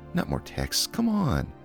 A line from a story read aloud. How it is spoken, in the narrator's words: a muted collective groan and a whispered few